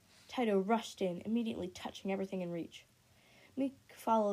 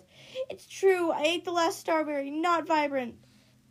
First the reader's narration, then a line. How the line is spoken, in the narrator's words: yelled